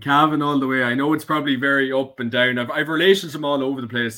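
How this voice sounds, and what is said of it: Irish Cavan accent. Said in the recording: “your wonderful guest accent. I thought from Anna, then Armagh and Leitrim ... Cavan for my sins”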